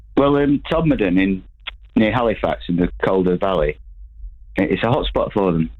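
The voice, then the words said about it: Northern English accent. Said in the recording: “Oh, I love your accent. ... I've just moved back up north.”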